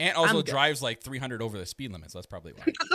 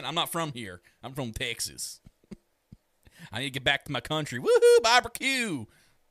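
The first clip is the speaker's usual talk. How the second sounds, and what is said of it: Put-on Southern US accent. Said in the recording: “I'm from the South. Can't hear my accent?”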